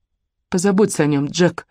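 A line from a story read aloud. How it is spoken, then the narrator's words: Breathy exhale. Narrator (Russian): выдохнула я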